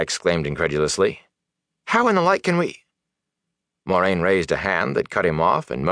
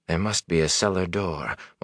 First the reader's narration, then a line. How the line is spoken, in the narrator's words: Moraine muttered